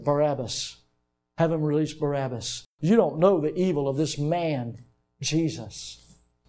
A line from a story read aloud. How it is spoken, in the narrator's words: they went through whispering